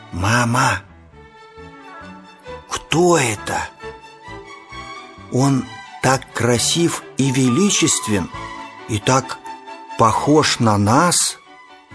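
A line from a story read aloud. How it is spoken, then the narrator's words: Child's frightened, awed whisper. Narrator (Russian): Испуганный и восхищенный, малыш тихо прошептал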